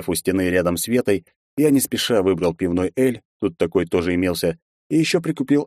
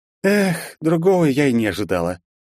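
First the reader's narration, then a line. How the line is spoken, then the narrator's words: Mock sigh, mouth full. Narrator (Russian): слегка наигранно вздохнула Вета, уже уплетая за обе щеки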